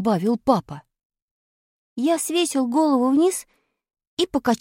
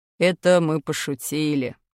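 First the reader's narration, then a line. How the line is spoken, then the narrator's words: Father grumbling. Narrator (Russian): пробурчал папа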